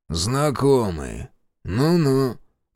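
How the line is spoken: Grumbling. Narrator (Russian): буркнул хозяин

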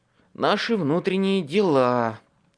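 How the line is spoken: Sigh. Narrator (Russian): вздохнул Столлингс

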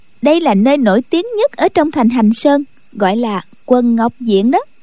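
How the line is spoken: Smiling. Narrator (Vietnamese): Khúc Phi Yên mỉm cười nói

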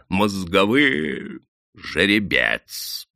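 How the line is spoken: Disgusted creaky man's voice. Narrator (Russian): проскрипел заросший мужик с отвращением

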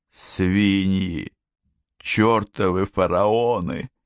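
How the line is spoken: Muttering under breath. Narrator (Russian): забормотал он себе под нос

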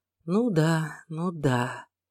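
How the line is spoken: Quiet. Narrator (Russian): тихо проговорила она

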